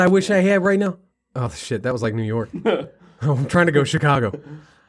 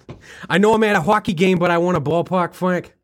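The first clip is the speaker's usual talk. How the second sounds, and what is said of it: Put-on Boston accent. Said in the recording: “That's a Boston accent.”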